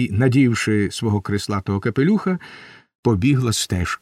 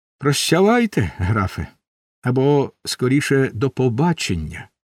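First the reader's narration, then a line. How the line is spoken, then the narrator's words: Cheerful ironic smiling remark. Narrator (Ukrainian): весело, іронічно посміхаючись, сказала полоненому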